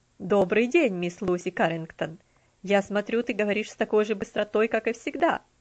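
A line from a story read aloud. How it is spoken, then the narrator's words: Laughing greeting. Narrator (Russian): Приветствовал ее мистер Динсмор, смеясь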